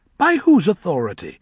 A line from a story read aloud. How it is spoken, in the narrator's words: asked Five, scoffing